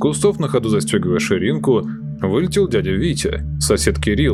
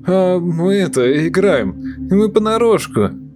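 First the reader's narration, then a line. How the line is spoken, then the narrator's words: Uncertain mumbling. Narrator (Russian): неуверенно замямлил он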